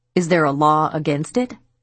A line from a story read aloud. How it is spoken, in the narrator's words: Diane barked back